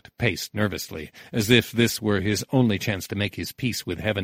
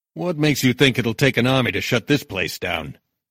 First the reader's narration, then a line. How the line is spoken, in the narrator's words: Nitty growled